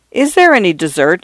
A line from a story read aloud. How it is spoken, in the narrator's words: Father Furman asked coldly